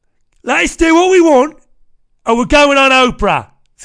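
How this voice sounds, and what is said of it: Weak put-on Cockney accent. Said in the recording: “doing his best Guy Ritchie character impression ... my accents all sound the fucking same. They're just embarrassing, my accents. That was supposed to be a Cockney accent.”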